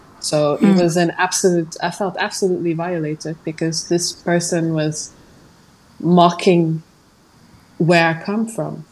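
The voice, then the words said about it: Non-native accent in English. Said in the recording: “Of course I'm speaking with an accent. I'm not from here. I'm from a different part of the world.”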